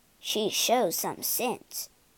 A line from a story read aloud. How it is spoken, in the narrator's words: Grandfather muttered to himself